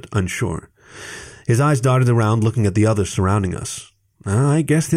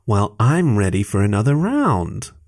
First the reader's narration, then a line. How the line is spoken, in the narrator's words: I said playfully